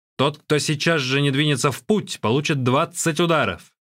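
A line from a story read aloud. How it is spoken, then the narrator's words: Shouted. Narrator (Russian): Янжи крикнул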